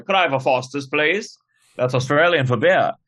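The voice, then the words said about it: Put-on English accent. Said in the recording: “In an English accent.”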